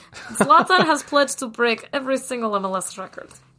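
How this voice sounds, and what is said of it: Put-on Russian accent. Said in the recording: “Why am I doing a Russian accent? ... I can do a little Russian. ... Good accent. ... You sound just like her.”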